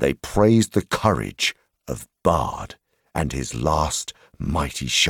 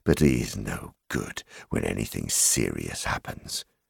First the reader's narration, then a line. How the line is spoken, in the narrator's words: murmured